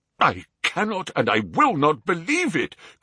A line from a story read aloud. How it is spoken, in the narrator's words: cried the banker, with an ashen face